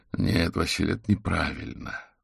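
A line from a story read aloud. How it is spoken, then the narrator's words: Sighing. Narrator (Russian): вздохнул Аверин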